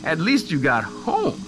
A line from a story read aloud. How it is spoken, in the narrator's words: Sienna said, laughing